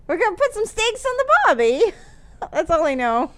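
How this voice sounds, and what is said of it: Attempted Australian accent. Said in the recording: “I can't speak Australian”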